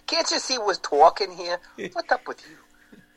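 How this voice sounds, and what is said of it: Put-on New York accent. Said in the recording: “New York accent, so that was rare”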